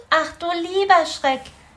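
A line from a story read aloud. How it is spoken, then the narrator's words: Calling out. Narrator (German): rief er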